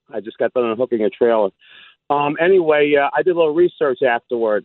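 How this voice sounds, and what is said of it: Out of breath, breathless speech. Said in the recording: “Excuse me, I'm out of breath.”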